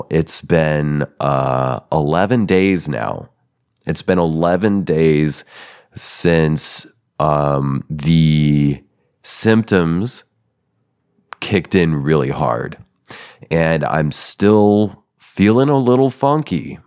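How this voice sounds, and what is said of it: Slightly weird, unwell voice. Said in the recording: “I caught COVID ... My voice is a little weird. I might cough. I might lose my voice”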